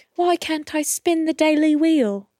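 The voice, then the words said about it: Put-on British girl accent. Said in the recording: “two little British girls ... apologies for the accent here”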